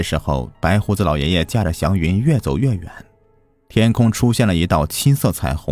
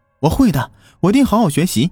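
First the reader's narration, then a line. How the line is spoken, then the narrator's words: Loud. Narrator (Chinese): 我大声说着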